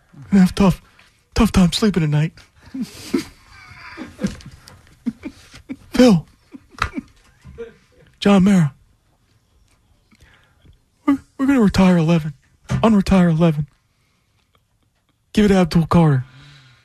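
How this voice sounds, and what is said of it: Imitates another person's voice. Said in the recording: “I'll do my John Mara voice.”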